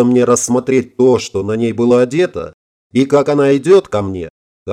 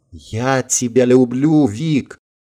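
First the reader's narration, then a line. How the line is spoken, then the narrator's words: Whispered. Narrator (Russian): прошептала Орлова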